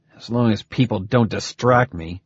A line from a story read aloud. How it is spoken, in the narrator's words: Harvey growled